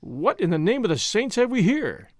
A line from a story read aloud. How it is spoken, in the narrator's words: he exclaimed